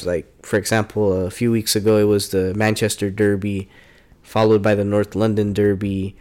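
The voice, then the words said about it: American accent. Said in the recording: “with a proper American accent. None of this European jargon.”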